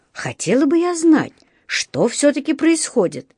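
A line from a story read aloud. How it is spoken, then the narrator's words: Exclaiming. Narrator (Russian): воскликнула миссис Браун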